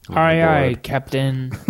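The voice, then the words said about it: Pirate voice. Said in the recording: “talking like a pirate”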